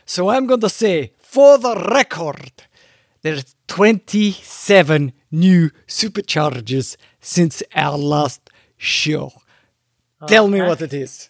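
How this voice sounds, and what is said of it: Put-on Scottish accent. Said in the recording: “I'd like to do a Scottish accent”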